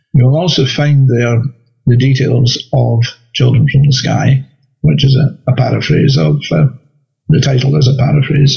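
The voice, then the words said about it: Scottish accent. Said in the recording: “I'm a science writer living in Scotland, as you probably gathered from the accent”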